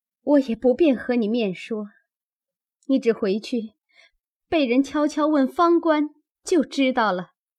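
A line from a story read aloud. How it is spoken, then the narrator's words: Crying. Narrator (Chinese): 又哭道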